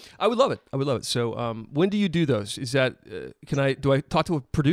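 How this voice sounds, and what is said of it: Usual voice. Nothing is said of it.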